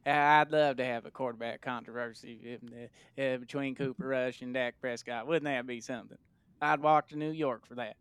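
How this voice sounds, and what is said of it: Jerry Jones impression. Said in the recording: “That was excellent. That's a very good Jerry Jones impersonation.”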